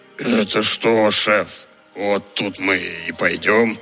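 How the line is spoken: Grumbled. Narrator (Russian): Пробурчал один из них

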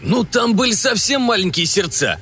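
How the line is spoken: Happy snort. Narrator (Russian): хмыкнул Пень от счастья

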